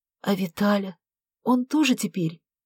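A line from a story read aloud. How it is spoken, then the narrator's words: Trembling voice. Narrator (Russian): Дрожащим голосом уточнила Вера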